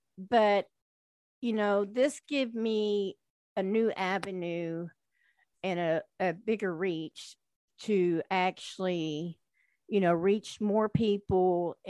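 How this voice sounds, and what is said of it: Southern twang accent. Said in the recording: “I am a country girl. ... just that southern twang.”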